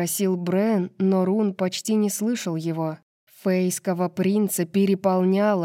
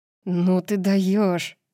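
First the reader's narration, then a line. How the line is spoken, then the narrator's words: Breathed out. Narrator (Russian): выдохнул Брен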